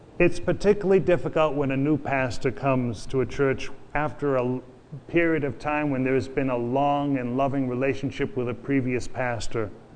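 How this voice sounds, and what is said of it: Boston accent. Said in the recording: “I have a Boston accent.”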